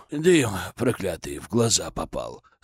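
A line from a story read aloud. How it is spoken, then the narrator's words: Embarrassed mutter. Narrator (Russian): сконфуженно пробормотал он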